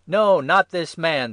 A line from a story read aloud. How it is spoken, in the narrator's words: they shouted again